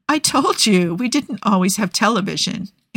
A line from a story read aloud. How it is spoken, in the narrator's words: Andy laughs